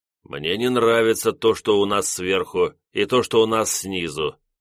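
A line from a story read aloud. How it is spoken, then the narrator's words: Gloomy remark. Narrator (Russian): мрачно заметил лорд Керзон Хао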